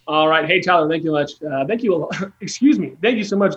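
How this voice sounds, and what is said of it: Emotional, choked-up voice. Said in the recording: “Getting choked up”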